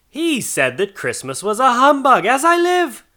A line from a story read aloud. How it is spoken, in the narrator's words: cried Scrooge's nephew